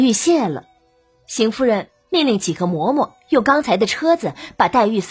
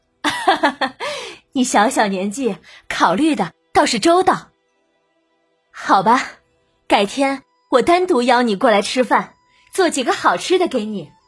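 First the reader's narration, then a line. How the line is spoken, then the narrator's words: Laughing. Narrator (Chinese): 邢夫人笑了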